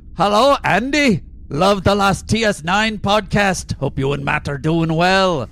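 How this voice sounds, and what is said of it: Put-on Scottish accent. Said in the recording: “please use best Scottish accent ... accent corner ... It's gonna be shit.”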